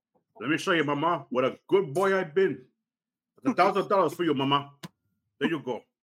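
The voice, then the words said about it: Tony Montana movie character impression. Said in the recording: “That was a pretty good impression. ... It was good. That was really good. That was better than mine. ... It was very good. ... I can do a pretty good Tony Montana”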